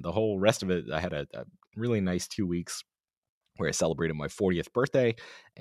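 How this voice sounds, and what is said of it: Sick-sounding voice. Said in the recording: “As you can probably hear in my voice, I picked up a sickness”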